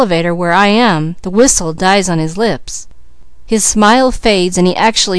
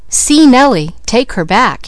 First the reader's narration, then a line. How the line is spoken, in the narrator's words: he exclaimed